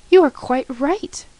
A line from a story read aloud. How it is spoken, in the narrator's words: cried the king